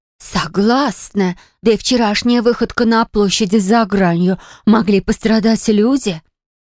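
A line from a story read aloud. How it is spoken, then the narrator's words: Emotional exclamation. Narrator (Russian): эмоционально воскликнула Харриет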